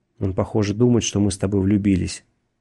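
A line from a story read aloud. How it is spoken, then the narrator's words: Plain. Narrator (Russian): сказал Макфрис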